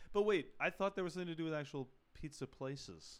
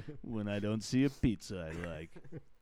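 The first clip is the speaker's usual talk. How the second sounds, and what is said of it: Imitates another person's voice. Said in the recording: “all of a sudden, Hillary sounds like that ... my Hillary Clinton impression.”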